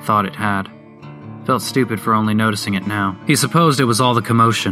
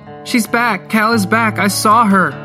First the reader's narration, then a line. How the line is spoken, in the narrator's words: Mary Beth screamed in reply